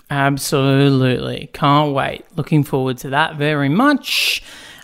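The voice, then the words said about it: Tired voice that sounds sarcastic. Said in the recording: “I'm sorry if I sound sarcastic. I do not mean to sound sarcastic. I am a tired man at the moment, so perhaps I just sound tired ... someone has run out of steam, it would seem.”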